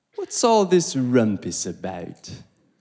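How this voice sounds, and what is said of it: Weak put-on British accent. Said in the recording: “Sorry if I just butchered a British accent right there.”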